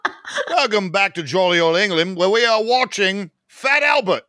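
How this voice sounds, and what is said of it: Poor attempt at a British accent. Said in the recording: “that's why they don't ask me to do an, a British accent in any of the things I've ever done ... that is fair. That is very fair.”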